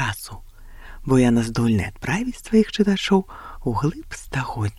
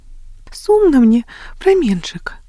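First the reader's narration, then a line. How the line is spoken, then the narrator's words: Sighing. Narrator (Belarusian): уздыхала Агнеса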